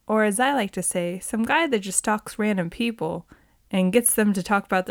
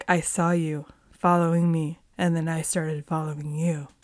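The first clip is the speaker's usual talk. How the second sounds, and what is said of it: Brad Pitt impression. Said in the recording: “That was my Brad Pitt impression.”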